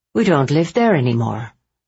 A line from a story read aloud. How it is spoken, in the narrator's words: Nora said coolly, as if it should be obvious